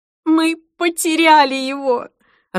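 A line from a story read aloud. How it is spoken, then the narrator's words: Sobbing. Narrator (Russian): рыдала Джейн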